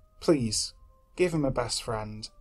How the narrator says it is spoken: I'd whisper at my bedside every night

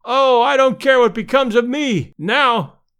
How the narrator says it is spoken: one fan, evidently a little longer winded than his comrades, cried out hysterically

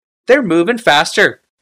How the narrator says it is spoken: shouted Tokasia

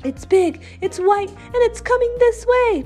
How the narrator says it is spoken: Jetta shouted

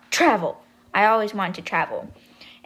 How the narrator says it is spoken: she blurts out

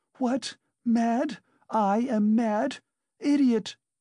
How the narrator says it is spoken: shrieked Katerina Ivanovna

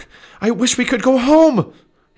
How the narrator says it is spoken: he shouted

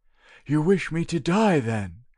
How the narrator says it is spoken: exclaimed the old man

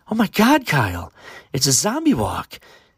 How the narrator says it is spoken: excitedly said his girlfriend

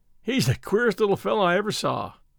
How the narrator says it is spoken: he observed, with a laugh

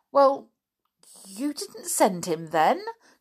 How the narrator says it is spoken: gasped Flip

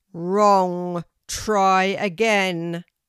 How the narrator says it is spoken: boomed the teacher of the oak tree

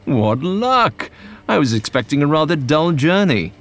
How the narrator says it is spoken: He exclaimed

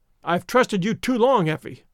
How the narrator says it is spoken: he cried sternly

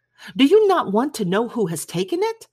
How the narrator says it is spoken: cried his wife impatiently

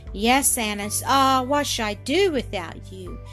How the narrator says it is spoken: exclaimed Elsie

